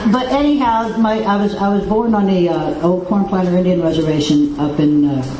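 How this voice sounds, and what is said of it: Speaks with a regional accent. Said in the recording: “I know I got this here accent.”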